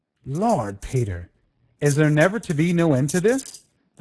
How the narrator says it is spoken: the giant had growled

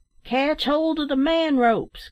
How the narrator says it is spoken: cried the last-named worthy

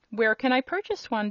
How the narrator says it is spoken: demanded the king eagerly

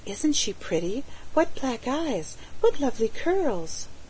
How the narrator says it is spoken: she heard them whisper

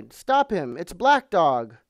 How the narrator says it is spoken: I cried

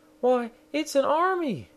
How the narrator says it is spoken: She exclaimed

